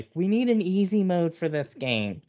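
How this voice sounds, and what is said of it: Imitates another person's voice. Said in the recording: “That's a really good impersonation... Can you do that again?... perfect.”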